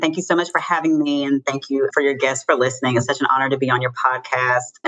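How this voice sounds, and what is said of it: North Carolina Southern accent. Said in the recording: “I was born and raised here in North Carolina... If you can't hear from the accent”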